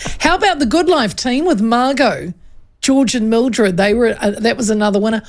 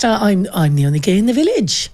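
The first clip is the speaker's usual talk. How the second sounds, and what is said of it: Attempted Welsh accent. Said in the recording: “were you trying to do a Welsh accent? ... I thought I was.”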